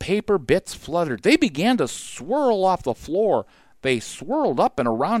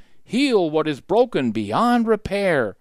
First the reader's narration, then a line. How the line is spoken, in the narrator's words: Jack read in a loud, clear voice